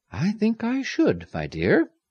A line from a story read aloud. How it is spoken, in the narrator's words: Amires replied calmly